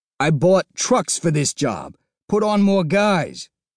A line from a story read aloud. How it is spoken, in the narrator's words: Toomes snapped, his voice beginning to rise